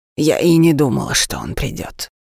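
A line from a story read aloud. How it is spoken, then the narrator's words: Brisk, peremptory tone. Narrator (Russian): продолжала Арманда все тем же бодрым безапелляционным тоном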